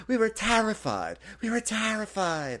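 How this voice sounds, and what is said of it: Imitated New Jersey accent. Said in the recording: “her New Jersey accent came out”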